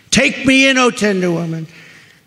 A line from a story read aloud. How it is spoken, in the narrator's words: cried the vicious snake